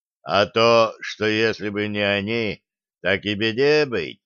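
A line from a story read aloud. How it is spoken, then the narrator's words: Booming drone. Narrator (Russian): прогудел князь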